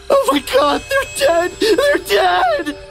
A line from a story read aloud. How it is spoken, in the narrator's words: He shrieked, his voice cracked into something that wasn't quite human